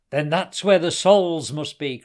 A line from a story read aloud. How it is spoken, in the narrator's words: cried Hassan